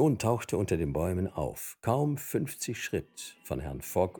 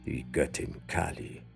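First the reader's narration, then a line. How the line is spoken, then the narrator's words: Murmured. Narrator (German): murmelte Sir Francis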